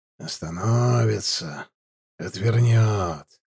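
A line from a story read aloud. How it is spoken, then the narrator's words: Mumbling. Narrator (Russian): бормотал Каргай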